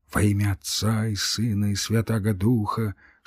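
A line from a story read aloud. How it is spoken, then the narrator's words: Whispering. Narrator (Russian): шептал он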